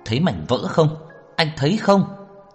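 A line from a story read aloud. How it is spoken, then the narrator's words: Tearful angry shout. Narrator (Vietnamese): Đường Khả Hinh thở dài, nước mắt kích động, tức giận rơi xuống, hét to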